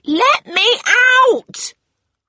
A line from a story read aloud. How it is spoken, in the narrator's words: her shout